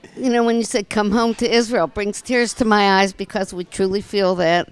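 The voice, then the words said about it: Pittsburgh accent, slightly Southern-sounding. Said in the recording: “You sound to me like you have a bit of a Southern accent, maybe ... I've been accused of having a Southern accent, but it's really just Pittsburgh”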